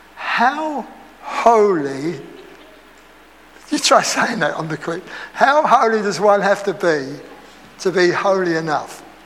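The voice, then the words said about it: Essex accent. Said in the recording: “I've got to lose my Essex accent.”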